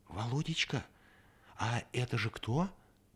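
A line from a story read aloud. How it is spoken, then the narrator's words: Mother whispering. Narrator (Russian): спросила шепотом мать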